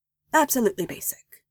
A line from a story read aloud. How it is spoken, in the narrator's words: he said